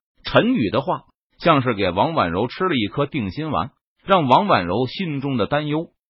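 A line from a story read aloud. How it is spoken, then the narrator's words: Slight smile. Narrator (Chinese): 陈宇…不禁微微一笑，说道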